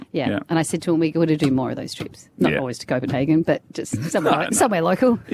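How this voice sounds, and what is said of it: Refined international accent. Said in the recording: “the accent? ... It's a weird international accent now. It's very refined.”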